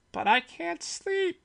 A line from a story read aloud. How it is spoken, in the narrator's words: Barry cried, his voice high and whiny